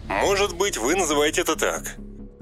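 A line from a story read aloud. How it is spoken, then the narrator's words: Indignant answer. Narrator (Russian): возмущенно ответил Хэри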